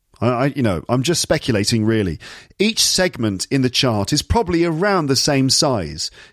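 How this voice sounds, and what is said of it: Standard British received pronunciation accent. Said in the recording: “just standard received pronunciation like the way I speak”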